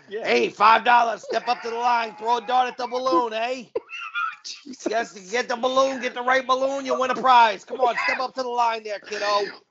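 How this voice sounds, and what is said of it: Put-on New York/New Jersey accent. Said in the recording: “Why do you have a New York or New Jersey accent?”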